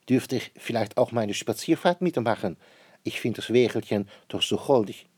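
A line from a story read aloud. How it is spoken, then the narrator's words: Queen calling out. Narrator (German): ruft die Königin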